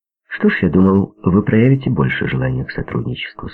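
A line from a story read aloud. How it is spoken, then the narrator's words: Plain. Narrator (Russian): сказал он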